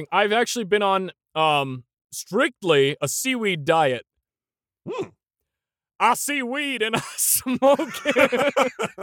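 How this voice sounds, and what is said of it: Put-on American Southern accent. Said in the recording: “Why'd you have to do a southern accent for that?”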